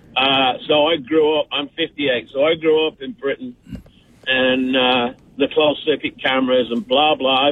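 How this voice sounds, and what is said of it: English accent. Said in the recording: “this English voice ... This accent is real. I don't put it on”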